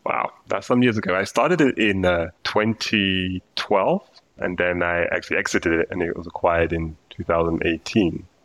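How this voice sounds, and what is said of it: British London accent. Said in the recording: “as you can hear from my accent, I'm originally from the UK, from London.”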